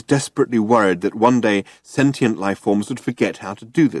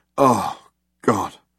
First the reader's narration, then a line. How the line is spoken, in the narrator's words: muttered Ford